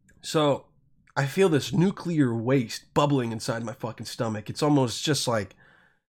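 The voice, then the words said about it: Sick-sounding voice. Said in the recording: “I'm sick, so I can't fucking do impersonations right now. My voice just sounds”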